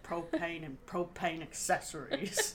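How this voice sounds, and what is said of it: Imitates Hank Hill cartoon voice. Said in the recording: “Sounded a little Hank Hilly ... I can't do a good voice.”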